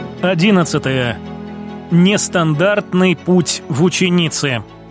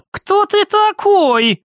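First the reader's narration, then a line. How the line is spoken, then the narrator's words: Cried out. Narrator (Russian): вскрикнула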